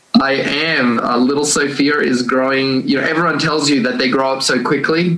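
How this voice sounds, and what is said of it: Australian accent. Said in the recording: “born and raised the only one in my family in Australia, which is where the accent comes in”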